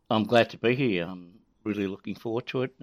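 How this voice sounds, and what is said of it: Australian accent. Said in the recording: “my Australian accent might woo the whole of the world ... I just hope people get used to my accent and understand me clearly enough”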